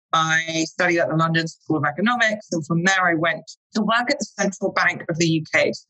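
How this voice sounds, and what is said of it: British English accent. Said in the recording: “someone with an English accent ... I am British. I am from London.”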